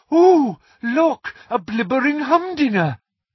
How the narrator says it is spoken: she had cried

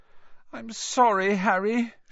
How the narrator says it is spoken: she wailed

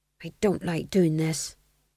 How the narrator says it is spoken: he murmured under his breath

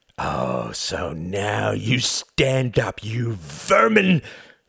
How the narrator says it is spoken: snarled Count Orski

